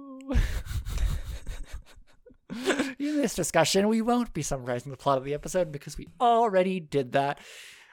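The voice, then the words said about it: Forced cheerful happy voice. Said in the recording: “I'm putting in a happy voice”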